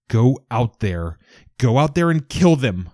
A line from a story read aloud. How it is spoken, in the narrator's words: yell